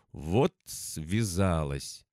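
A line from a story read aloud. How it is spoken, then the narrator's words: Exhaled through gritted teeth. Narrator (Russian): через зубы выдохнула Настя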